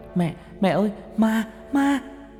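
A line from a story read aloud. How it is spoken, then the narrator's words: Screaming loudly. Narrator (Vietnamese): Tôi cứ hét toáng lên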